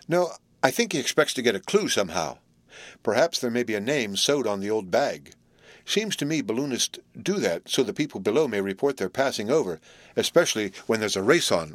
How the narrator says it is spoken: remarked calmly

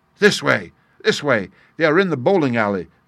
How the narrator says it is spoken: cried the stranger

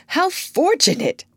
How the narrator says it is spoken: cried John Doolittle

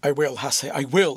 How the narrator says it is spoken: exclaimed the boy, choked by the great sobs that at length came to his relief

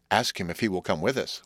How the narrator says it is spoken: whispered the hermit

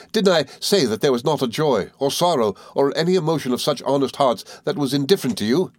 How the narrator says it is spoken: cried I

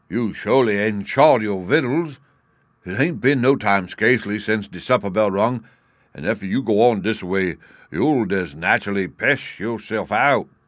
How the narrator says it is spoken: Uncle Remus exclaimed

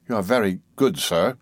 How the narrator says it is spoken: I murmured, anticipating a concession

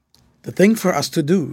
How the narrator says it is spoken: said Grant, in a low voice to Fred

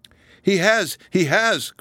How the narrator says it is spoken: cried Marianne

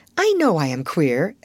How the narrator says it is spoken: admitted Sarah cheerfully

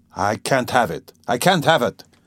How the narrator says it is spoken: he repeated irritably

